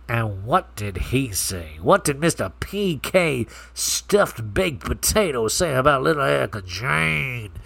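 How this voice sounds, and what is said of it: Imitates another person's voice. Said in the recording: “I started doing the Sutton accent”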